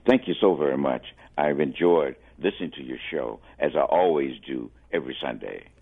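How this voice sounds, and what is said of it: Radio-style voice. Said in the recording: “I love your radio voice.”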